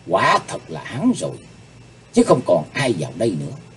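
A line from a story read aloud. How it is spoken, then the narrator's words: Muttering to herself. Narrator (Vietnamese): miệng lẩm bẩm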